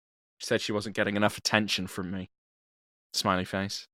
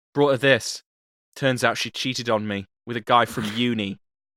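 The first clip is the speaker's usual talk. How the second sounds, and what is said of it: Put-on accent. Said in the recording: “I'm going to do an accent, and it's going to become apparent why ... That's right, I did the accent.”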